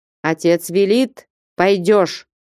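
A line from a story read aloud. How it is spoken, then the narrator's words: Stern voice. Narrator (Russian): строгим голосом сказал Потап Максимыч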